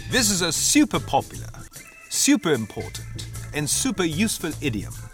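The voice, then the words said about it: British accent. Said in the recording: “用英国口音再来读一遍 ... Please read this passage in British accent.”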